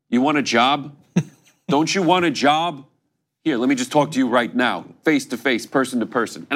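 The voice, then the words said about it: Bernie Sanders impression. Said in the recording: “That was a good impersonation, by the way. One of your underrated ones.”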